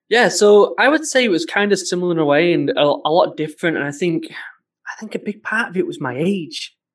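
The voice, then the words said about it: Northern English accent. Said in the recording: “You've got a northern accent”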